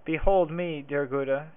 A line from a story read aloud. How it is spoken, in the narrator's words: said he